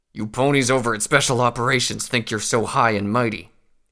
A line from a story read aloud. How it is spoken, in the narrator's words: he growled